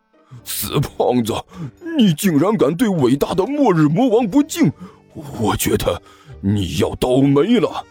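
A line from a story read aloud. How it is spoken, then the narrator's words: Angry roar. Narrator (Chinese): 哈士奇怒吼了一声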